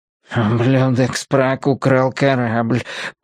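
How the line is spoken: Whimpering. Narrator (Russian): прохныкал Пеппер Три

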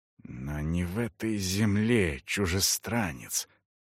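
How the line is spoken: Hissing. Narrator (Russian): прошипела она

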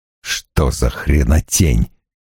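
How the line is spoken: Muttering. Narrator (Russian): пробормотал Страйк

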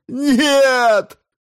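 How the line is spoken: Howling. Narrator (Russian): взвыл астрофизик

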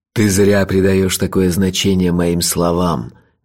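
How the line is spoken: Soft chuckle. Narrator (Russian): мягко усмехнулся Лойса

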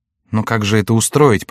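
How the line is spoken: Faltering babble. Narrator (Russian): пролепетала госпожа де Соф

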